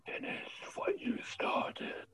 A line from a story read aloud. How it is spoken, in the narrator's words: a third voice, barely a whisper, in your ear, not in your head, but in your ear, says